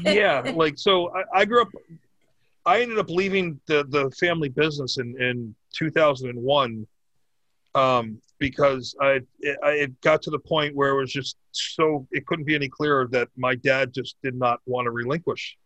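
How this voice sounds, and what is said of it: Noticeable regional accent. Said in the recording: “When you say family business with your accent, I just immediately think like mafia shit ... I listen to his accent”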